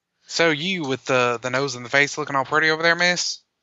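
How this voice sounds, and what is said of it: Deliberately horrible put-on accent. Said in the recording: “I really want to see how long you guys were gonna let me keep doing that. I can't do it anymore. That accent's horrible.”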